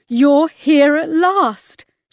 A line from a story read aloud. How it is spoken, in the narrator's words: sobbed